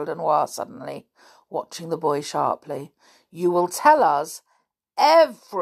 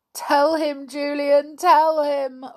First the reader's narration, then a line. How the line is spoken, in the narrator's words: wailed Marybelle